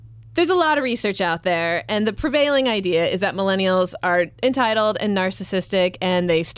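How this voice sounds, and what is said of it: Usual voice. Nothing is said of it.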